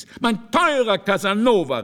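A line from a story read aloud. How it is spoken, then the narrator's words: Calling out. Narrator (German): rief Bragadino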